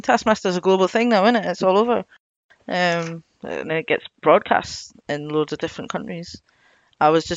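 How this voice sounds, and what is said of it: Scottish accent. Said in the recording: “I'm in Scotland. ... I know my accent is weird”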